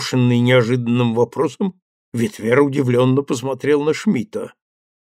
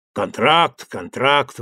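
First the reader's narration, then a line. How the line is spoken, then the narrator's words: Grumbling. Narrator (Russian): ворчал голландец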